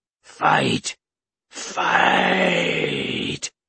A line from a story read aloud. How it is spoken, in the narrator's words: he roared to his warriors